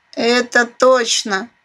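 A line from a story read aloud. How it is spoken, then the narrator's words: Wry snort. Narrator (Russian): хмыкнул мельник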